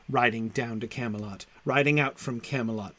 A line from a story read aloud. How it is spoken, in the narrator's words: murmured Loudon